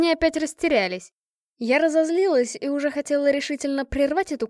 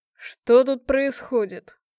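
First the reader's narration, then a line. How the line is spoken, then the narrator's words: Very manly, confident voice. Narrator (Russian): произнесены они были самым что ни на есть мужественным голосом, перед которым отступают все неприятности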